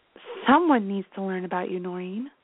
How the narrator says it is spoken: she whispered

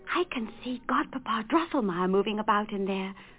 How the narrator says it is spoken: whispered Fritz

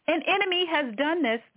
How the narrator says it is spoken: the farmer exclaimed

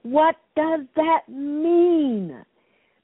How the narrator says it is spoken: Out of my frustration, I screamed

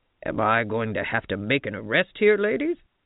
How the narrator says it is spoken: He asked in his gruffest voice

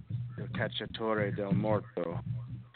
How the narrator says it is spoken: in a child's voice, Scav whispered

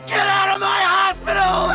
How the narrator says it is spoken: He screamed

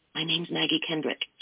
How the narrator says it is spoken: she whispered

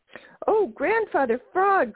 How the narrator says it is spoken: cried the merry little breezes all together

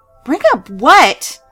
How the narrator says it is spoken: suddenly screamed

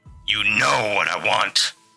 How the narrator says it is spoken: the man hissed

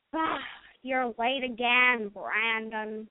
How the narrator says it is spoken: grumbled Gregory

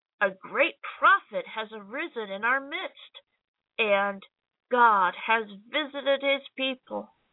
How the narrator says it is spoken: Fear seized them all, and they glorified God, exclaiming

